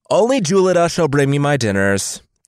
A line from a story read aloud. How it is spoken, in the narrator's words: cried